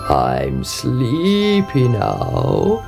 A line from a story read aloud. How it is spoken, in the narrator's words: he croaked